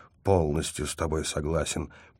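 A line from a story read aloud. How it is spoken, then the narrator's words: Muttered through clenched teeth. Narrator (Russian): пробормотал я сквозь плотно стиснутые зубы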